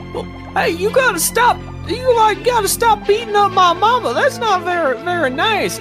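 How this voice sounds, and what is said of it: Thick southern accent character voice. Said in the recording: “a thick southern accent coming from beneath the water”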